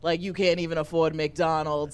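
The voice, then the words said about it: Donald Trump impression. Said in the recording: “a brilliant Trump impression”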